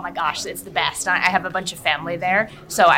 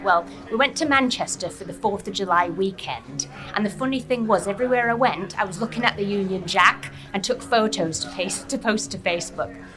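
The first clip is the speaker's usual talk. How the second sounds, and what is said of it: Put-on Manchester English accent. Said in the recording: “I was kind of practicing my accent to give it to you ... 10 out of 10. 10 out of 10 ... I'd say it's even better than mine”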